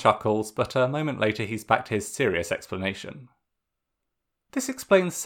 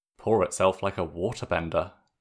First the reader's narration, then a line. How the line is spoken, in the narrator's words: June mutters